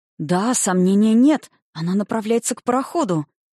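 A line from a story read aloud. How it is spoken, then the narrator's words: Exclamation. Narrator (Russian): воскликнул он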